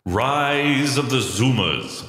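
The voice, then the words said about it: Big dramatic announcer voice. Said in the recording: “I should probably do that in a big voice”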